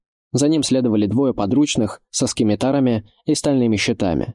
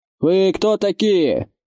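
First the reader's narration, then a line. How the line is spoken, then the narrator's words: Leader's shout. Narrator (Russian): крикнул главарь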